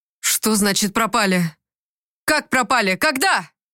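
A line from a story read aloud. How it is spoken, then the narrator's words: Shout. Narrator (Russian): закричал он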